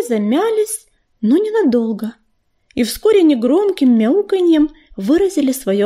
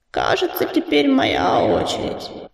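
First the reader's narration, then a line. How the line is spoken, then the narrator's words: Creaky voice. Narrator (Russian): проскрипел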